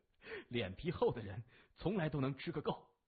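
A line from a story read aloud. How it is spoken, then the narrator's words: Hearty laughter. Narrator (Chinese): 谢文东敞开心怀，哈哈的笑着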